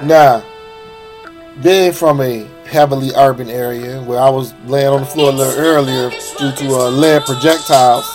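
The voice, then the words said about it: Sick-sounding voice. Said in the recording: “Why does your voice sound like that? Are you sick? ... I'm sick, buddy.”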